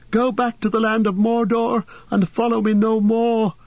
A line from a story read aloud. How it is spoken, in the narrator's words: His voice sounded thin and shrill in his own ears